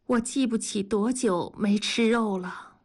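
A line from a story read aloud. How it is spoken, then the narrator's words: Sighing. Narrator (Chinese): 文丽叹了口气说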